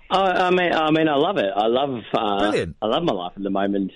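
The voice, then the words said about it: Australian accent. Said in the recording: “It sounds vaguely Australian, maybe a little bit South African... It is Australian.”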